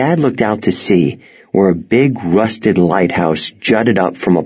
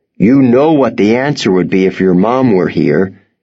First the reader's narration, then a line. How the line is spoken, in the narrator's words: he said